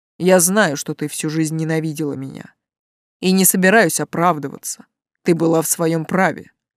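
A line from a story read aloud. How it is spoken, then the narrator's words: Calm. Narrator (Russian): спокойно продолжил король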